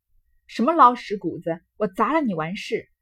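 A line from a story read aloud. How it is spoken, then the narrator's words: Fierce, through gritted teeth. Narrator (Chinese): 咬牙狠命的……道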